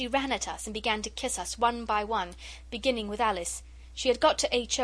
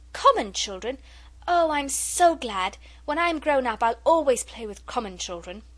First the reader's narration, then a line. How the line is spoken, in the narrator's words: the little girl cried out